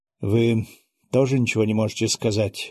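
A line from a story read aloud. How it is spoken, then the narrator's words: Sighed. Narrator (Russian): вздохнул наследник престола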